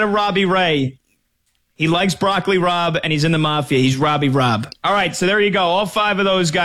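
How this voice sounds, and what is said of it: Usual voice. Nothing is said of it.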